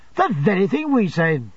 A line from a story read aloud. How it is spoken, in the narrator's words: cried Traddles